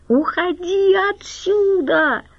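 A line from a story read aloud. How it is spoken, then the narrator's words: Embarrassed shout. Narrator (Russian): закричала Галя и покраснела до корней волос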